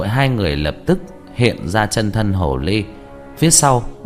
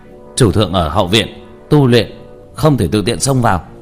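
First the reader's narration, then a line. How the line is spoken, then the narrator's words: Men shouting sternly. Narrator (Vietnamese): 4 nam nhân hồ tộc cầm bích ngọc qua trong tay ngăn lại, quát lên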